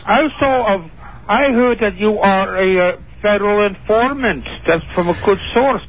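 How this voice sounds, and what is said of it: Phony cartoonish foreign accent. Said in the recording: “that is the worst phony accent I've ever heard ... That's almost like, what's the guy on Bullwinkle? Boris Badenoff.”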